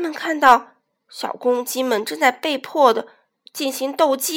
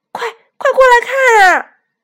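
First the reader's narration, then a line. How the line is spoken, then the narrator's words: Shout. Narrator (Chinese): 大嘴巴喊道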